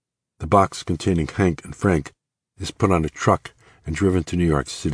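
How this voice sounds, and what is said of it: Usual voice. Nothing is said of it.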